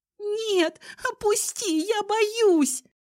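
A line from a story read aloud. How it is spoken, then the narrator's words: Sobbing girl. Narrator (Russian): рыдала девушка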